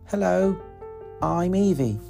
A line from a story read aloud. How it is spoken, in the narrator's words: she said